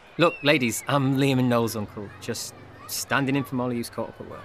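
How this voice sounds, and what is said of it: Speaks with a noticeable accent. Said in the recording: “Why you got an accent, though?”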